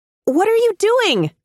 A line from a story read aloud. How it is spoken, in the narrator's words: yell over the onslaught